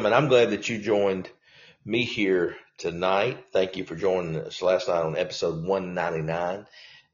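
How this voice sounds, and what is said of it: Congested, sniffly voice from cold. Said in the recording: “Apologize a little bit for the kind of sniffles, but I've got a little cold,”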